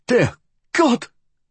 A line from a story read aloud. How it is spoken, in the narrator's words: he gasped